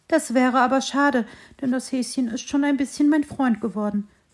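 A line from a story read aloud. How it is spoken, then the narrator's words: Little tree's thoughtful sigh. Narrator (German): seufzte das Bäumchen nachdenklich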